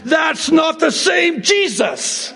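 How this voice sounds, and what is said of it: Yelling loudly. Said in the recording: “sorry I'm yelling, but I need to yell this and shout this from the rooftops”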